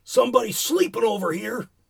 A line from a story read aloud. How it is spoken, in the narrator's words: the boy, who sat bolt upright and shouted irritably